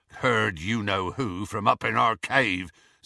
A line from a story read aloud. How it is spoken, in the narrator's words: said Hagrid grimly